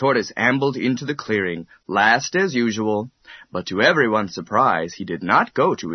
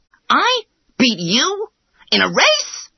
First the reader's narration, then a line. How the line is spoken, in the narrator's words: exclaimed the hare, he laughed so much